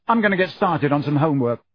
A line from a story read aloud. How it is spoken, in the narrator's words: said Ron angrily